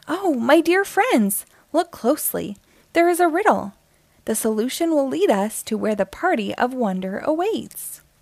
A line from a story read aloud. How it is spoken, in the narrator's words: Lily, the nimble squirrel, her eyes widened with curiosity and she exclaimed